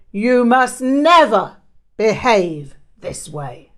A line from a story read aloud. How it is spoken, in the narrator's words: roared